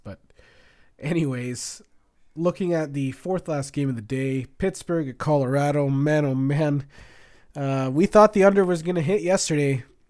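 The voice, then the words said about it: Slightly sick-sounding voice. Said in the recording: “I'm sorry if I sound like a little sick too. I think I'm getting a little bit of allergies.”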